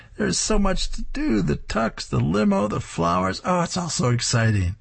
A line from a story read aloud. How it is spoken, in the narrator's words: She squeals